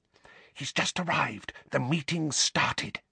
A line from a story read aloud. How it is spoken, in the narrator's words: whispered urgently